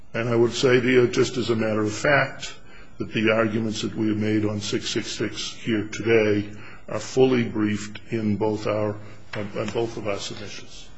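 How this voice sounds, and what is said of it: Soothing Boston accent. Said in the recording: “You have a very soothing Boston accent.”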